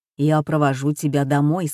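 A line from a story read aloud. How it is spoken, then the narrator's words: Plain. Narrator (Russian): сказал он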